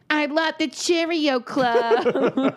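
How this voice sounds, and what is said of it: Child-like New York accent. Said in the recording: “she says it with like a New York accent ... She's like a little Marissa Tomei”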